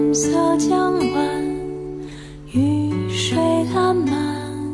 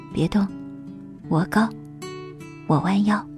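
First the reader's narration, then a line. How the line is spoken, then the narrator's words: Low voice near ear. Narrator (Chinese): 她男朋友凑到她耳边低声的说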